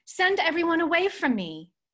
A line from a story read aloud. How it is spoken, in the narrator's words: he cried out